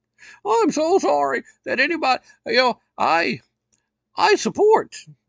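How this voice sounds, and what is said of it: Imitates another person's voice. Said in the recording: “I can't do a very good voice for her”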